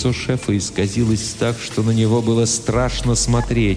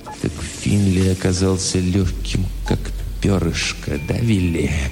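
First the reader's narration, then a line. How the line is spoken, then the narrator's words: Dull hollow voice. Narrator (Russian): глухо сказал Хэмпхилл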